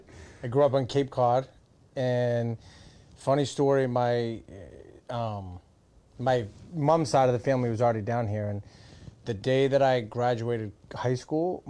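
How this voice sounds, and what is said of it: Massachusetts accent. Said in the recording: “I'm originally from Massachusetts. You could probably tell from my accent”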